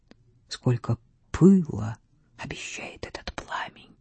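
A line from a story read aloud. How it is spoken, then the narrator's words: Whisper. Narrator (Russian): Вальдемар прошептал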